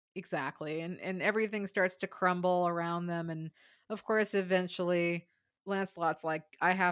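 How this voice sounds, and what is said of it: Usual voice. Nothing is said of it.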